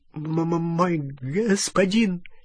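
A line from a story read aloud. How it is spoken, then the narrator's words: Terrified stammering babble. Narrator (Russian): залепетал гоблин, запинаясь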